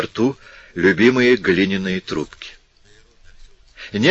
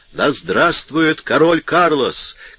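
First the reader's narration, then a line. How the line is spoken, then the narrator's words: Hoarse shout. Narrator (Russian): кричал хриплый голос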